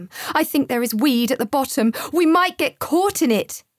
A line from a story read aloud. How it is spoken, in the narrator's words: he yelled with a look of terror on his face